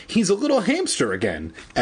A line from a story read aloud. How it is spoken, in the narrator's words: Evan exclaimed happily